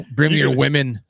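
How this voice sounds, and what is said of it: Imitates a Viking voice. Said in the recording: “get your best impression of a Viking”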